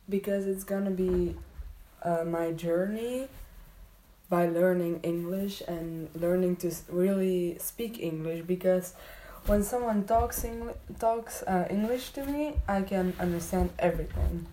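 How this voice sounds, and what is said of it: Belgian non-native English accent. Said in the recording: “I live in Belgium, so that's why my accent isn't so great”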